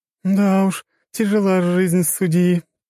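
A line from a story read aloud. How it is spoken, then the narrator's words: Giggling. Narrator (Russian): хихикала Джессика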